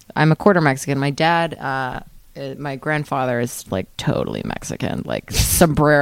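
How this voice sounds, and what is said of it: Usual voice. Nothing is said of it.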